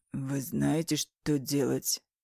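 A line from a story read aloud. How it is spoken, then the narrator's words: Hoarse question. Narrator (Russian): спрашивает хрипло Мар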